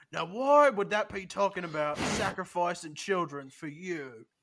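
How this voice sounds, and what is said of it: Speaks in a character voice. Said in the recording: “let me get in character voice”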